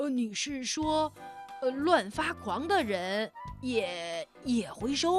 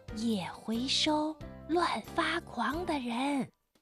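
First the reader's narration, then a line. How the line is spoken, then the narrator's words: Sly whisper. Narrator (Chinese): 狐狸却故意凑了上来，小声地对他说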